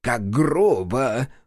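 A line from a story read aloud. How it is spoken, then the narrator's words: Chuckling again. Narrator (Russian): вновь хохотнул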